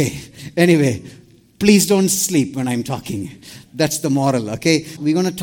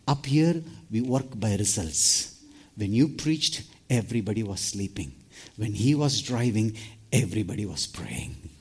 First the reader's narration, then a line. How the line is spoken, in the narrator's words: Peter was so coolly, he said